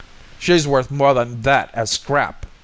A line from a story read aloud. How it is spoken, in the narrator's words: bellowed Voorhees